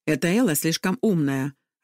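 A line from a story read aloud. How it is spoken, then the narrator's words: Irritated remark. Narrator (Russian): раздраженно бросила Магда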